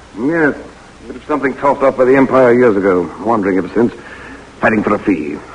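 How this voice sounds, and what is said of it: English accent. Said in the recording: “Don't be alarmed by my accent ... You're English?”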